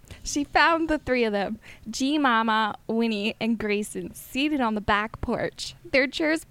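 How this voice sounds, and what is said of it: Put-on Southern US accent. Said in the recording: “reading it in my head in a southern accent ... this is literally how I read it in my head”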